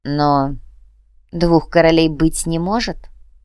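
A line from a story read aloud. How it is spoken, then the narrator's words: Cold, curt. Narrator (Russian): холодно бросил Густав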